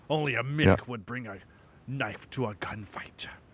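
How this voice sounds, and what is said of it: Imitates another person's voice. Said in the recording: “my worst Sean Connery impression ever. ... that was the best, man.”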